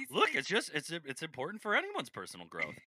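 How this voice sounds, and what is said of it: Imitates another person's voice. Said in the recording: “was that a Patrick impression? ... That was my was, Patrick.”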